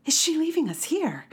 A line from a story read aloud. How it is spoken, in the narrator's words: gasped